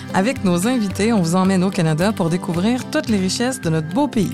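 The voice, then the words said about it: Montreal Québécois French accent. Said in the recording (French): “vous entendez mon accent, je suis de Montréal”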